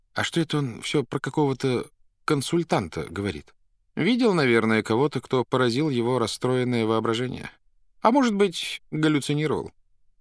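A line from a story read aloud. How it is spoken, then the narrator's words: Sighing question. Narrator (Russian): Вздохнул и спросил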